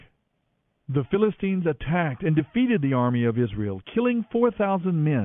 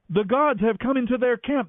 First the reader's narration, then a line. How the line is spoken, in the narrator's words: they cried